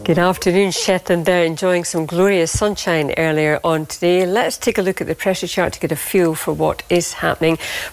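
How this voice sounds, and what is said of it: Strong Scottish accent. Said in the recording (Dutch): “geboren en getogen Schots ... kijkers verstonden er helemaal niks van, omdat ze zo'n sterk Schots accent heeft”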